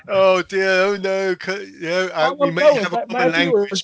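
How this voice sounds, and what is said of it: Fake British accent. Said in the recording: “this guy with a fake British accent”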